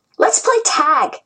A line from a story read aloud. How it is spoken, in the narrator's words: Ji-Yun said excitedly